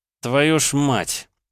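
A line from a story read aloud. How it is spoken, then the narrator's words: Swearing. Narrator (Russian): Опять выругался Илья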